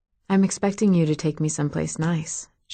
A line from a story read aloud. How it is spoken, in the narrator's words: said softly